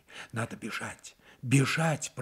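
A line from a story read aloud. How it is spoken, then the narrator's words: Frightened babbling. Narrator (Russian): пролепетала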